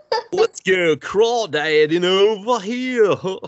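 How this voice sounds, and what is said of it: British hillbilly voice, bit of Goofy. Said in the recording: “That was like a British hillbilly. ... With like a pinch of Goofy in there.”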